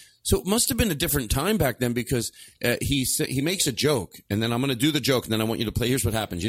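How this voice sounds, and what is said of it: Usual voice. Nothing is said of it.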